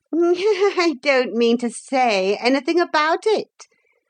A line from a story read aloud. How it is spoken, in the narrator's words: the Pretenderette answered with an unpleasant giggle